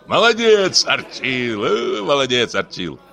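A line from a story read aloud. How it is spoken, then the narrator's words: Laughing group. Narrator (Russian): засмеялись слуги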